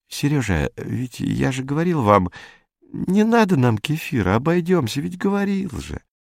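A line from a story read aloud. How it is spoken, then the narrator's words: Gentle reminder. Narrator (Russian): Агасфер Лукич напомнил мягко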